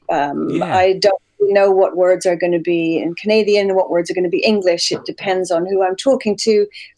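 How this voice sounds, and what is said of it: Hybrid British-Canadian accent. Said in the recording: “a bit of a British accent ... my natural accent, as you can hear right now, is like, it's a bit of a hybrid”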